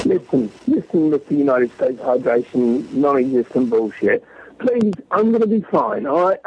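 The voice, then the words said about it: Non-American accent. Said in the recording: “I'm American. I don't understand your accent. Your stupid, disgusting accent.”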